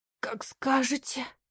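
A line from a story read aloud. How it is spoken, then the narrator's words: Hoarse, inwardly exultant. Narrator (Russian): Ликуя в душе, прохрипела Лара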